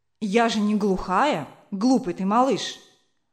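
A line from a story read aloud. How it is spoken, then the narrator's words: Angry. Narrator (Russian): ответила сердито мать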